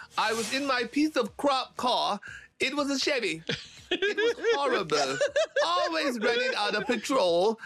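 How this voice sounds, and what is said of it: Australian accent. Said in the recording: “your famous Australian accent”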